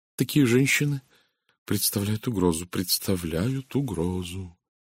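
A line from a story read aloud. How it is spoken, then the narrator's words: Quiet, deeply emotional voice. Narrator (Russian): Тихим голосом, проникнутым глубоким чувством, начал Стивен Лейн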